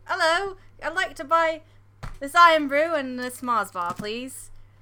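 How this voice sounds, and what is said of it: Put-on British accent, not convincing. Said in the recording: “I'm gonna be British Britty ... my accent is shit”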